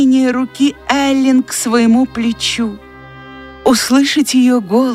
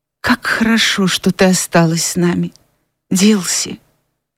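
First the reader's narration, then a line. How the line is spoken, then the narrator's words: Whisper. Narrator (Russian): прошептала Скарлетт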